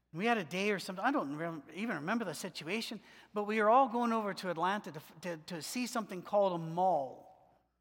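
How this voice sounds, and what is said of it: Alabama accent. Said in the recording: “I went to University of Alabama in Birmingham. It's where I get the accent.”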